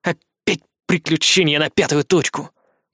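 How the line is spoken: Grumbling. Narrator (Russian): проворчал Фома

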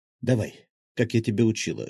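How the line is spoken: Whisper in ear. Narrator (Russian): шепнула она на ухо

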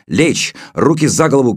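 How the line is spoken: Woman shouting. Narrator (Russian): крикнула женщина

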